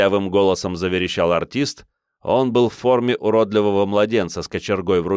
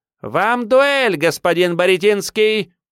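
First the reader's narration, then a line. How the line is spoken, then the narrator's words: Shouting. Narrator (Russian): Крикнув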